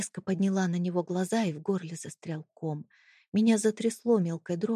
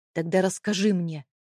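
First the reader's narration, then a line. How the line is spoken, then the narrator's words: Barking. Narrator (Russian): рявкнул он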